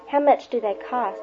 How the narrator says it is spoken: asked Billy

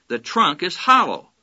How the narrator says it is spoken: cried

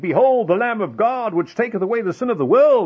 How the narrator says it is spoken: exclaimed

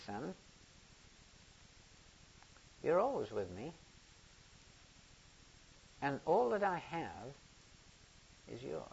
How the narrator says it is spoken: smiled gently, and he said

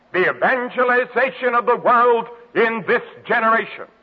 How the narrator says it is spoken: the student volunteer movement shouted to the world

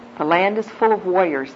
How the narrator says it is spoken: they said

